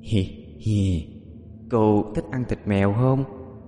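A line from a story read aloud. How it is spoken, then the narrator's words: Eerie giggling child. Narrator (Vietnamese): đôi môi khẽ nở một nụ cười quỷ dị nói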